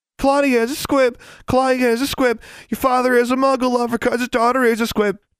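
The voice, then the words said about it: Taunting sing-song chant. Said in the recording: “Jezebel chanted in a sing-song voice.”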